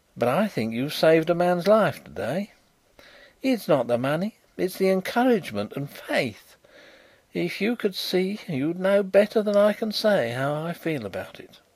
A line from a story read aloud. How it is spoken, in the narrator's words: said in a queer voice